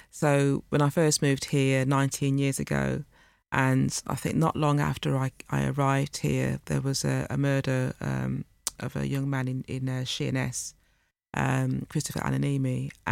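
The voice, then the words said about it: Slight Wolverhampton accent. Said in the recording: “you can hear a slight accent, Wolverhampton accent.”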